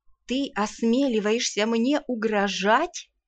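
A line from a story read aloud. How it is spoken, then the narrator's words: Uncertain indignation. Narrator (Russian): Как-то неуверенно возмутилась Лейрена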